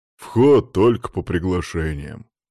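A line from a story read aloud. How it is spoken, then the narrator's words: Burly man's blunt stop. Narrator (Russian): остановил меня бугай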